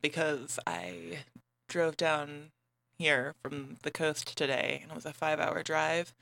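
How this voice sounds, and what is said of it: Hoarse, worn-out voice. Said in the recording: “My trademark smooth voice is actually also gone ... I sang along very loudly to a lot of songs, and I'm kind of losing my voice”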